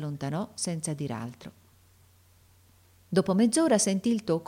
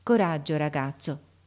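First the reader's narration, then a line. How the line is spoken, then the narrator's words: Plain. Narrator (Italian): rispose la suora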